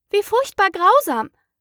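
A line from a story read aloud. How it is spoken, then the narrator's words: Shouted. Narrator (German): rief Alice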